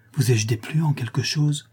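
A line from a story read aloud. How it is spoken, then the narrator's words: Timid. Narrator (French): dit timidement Fleur de Marie, frappée de ce brusque changement de langage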